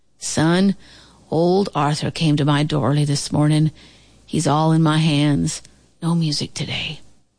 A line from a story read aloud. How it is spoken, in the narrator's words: moaned Uncle Booker T